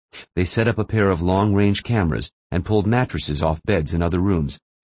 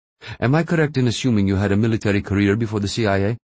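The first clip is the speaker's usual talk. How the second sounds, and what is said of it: Sing-song Pakistani accent. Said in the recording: “Al-Darkur said in his sing-song Pakistani accent”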